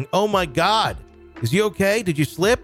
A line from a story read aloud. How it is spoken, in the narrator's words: My new coworker came running to the back shouting